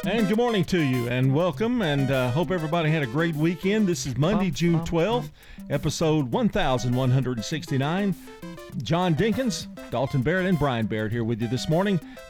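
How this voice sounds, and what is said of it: Exaggerated radio announcer voice. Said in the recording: “Notice I'm doing my radio voice for this.”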